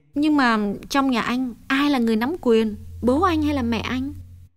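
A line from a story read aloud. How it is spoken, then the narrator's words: Happy, smiling question. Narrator (Vietnamese): Hồng càng thấy vui trong lòng, nàng mỉm cười hỏi thêm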